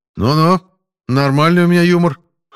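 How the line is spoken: Amused snort. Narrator (Russian): хмыкнул Смирнов

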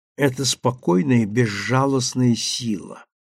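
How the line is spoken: Plain. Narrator (Russian): наконец сказала Сима

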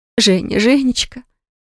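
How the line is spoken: Relieved exhale. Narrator (Russian): Облегченно выдохнула родительница

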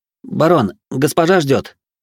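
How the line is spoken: Uncertain young male voice. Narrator (Russian): неуверенно произнес молодой посыльный

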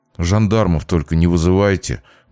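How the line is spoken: Mumbling young man. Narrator (Russian): буркнул парень

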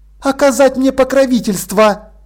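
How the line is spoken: Angry. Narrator (Russian): ответила Полли сердито

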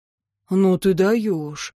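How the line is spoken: Breathed out. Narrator (Russian): выдохнул Тьен

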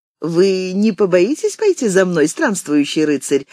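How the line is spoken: Laughing young woman. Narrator (Russian): рассмеялась девушка

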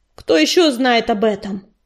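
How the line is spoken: Rough barking. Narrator (Russian): грубо рявкнул он

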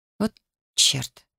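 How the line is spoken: Barely audible mutter. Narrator (Russian): пробормотала я едва слышно

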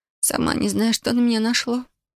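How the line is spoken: Hoarse tearful voice. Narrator (Russian): прохрипела я сиплым от слез голосом

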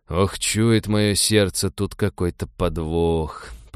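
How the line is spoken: Grumbling ex-paratrooper. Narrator (Russian): проворчал бывший десантник

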